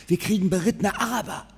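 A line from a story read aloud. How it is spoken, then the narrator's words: Whisper. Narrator (German): flüsterte er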